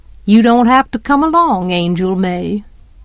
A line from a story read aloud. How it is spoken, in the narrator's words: he said sweetly